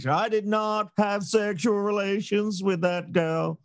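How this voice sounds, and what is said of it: Imitates another person's voice. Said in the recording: “Oh, that was good. It's that woman, but that's good. I think that's been your best accent so far”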